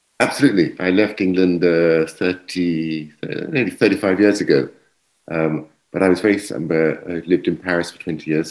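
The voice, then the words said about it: English accent. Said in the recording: “from the accent, you're an Englishman”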